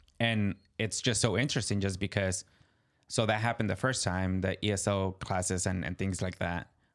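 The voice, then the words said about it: Spanish-accented English. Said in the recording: “Obviously, I have my accent... my thoughts are in Spanish... my accent comes out”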